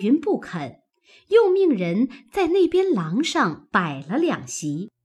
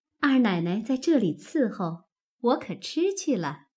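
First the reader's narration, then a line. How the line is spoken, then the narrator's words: Smiling. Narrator (Chinese): 鸳鸯因向凤姐笑道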